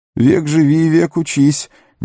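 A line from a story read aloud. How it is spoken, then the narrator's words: Shaky wheezing voice. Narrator (Russian): нетвердым голосом просипел Сэм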